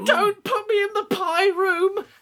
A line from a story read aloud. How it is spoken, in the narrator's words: Gret cried